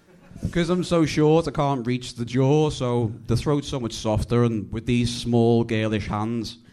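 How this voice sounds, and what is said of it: Strong Scouse Liverpool accent. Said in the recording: “it's the Scouse accent ... some people in England speak the worst English I've ever heard ... I just can't really decipher it”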